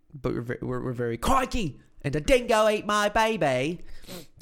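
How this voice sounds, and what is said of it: Weak Australian accent, sounds Cockney. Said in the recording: “I don't know how to say that with an Australian accent ... that sounded like Cockney. ... It did a little bit.”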